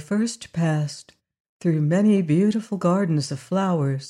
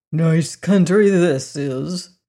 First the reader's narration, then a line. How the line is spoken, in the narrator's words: grumbled